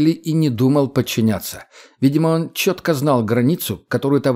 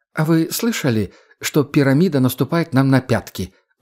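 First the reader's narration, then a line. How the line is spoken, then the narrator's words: Calm question. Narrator (Russian): спокойно спросил он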